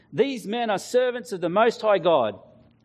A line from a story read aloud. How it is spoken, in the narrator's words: She shouting